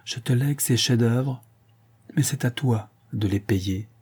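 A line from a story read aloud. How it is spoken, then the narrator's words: Murmured into ear. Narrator (French): murmura-t-il à son oreille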